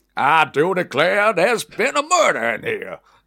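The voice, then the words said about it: Exaggerated Southern American accent. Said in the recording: “your American accent ... Knives Out and Glass Onion ... that absolutely incredible Southern accent”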